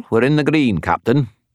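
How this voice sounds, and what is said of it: Put-on Scottish accent. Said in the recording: “affecting a Scottish accent”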